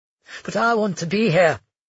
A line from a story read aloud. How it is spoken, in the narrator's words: he replied tightly